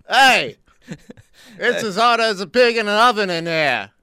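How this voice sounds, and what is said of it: Bad put-on New York accent. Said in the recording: “If you had a New York accent ... that was a terrible New York accent”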